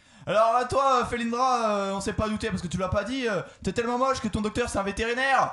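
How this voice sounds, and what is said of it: Put-on Marseille accent. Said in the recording (French): “Qui fait une draw ou l'autre de canon de Marseille? ... je prends son accent en plus”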